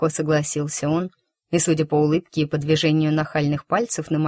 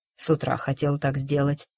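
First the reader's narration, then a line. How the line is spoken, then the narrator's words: Whisper. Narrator (Russian): шепнул Марк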